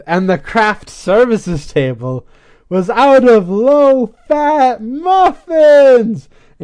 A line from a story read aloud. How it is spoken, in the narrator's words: she screams